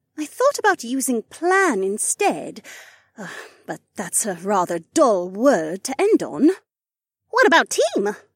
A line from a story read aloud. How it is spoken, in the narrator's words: Ilara squeaked